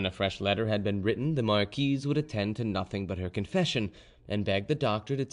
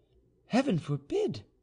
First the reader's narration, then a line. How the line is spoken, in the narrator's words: cried the Marquise